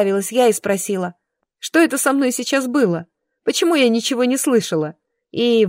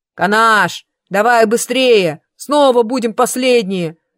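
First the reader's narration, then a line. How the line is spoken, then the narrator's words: Deep bass voice. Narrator (Russian): пробасил второй брат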